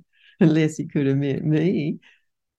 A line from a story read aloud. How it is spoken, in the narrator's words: said, laughing